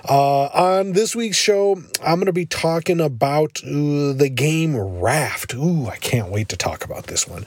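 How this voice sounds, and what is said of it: Voice sounding a little off. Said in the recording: “my voice sounds a little bit off. I've been a bit under the weather”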